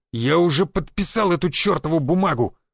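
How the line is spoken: Growled into phone. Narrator (Russian): зарычал в телефон агент тайной полиции Дорохов

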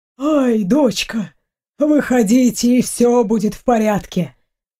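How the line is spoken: Soft, gentle. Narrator (Russian): мягко произносит папа

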